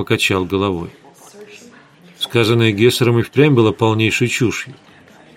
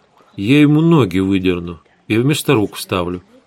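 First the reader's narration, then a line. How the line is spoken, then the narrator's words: Completely calm. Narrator (Russian): совершенно спокойно пообещала Светлана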